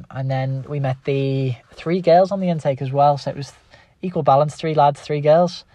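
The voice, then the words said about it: Scouse (Liverpool) accent. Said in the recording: “my Scouse accent”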